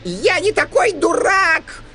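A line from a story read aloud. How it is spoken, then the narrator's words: Shouting. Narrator (Russian): закричал гном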